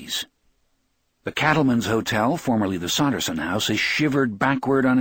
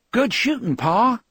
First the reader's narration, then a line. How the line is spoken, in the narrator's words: he exclaims